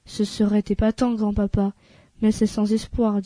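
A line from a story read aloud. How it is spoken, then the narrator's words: Sad. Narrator (French): dit tristement Charlie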